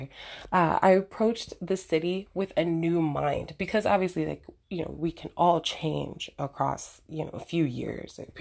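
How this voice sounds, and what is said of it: Strained, fading hoarse voice. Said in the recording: “I'm losing my voice here.”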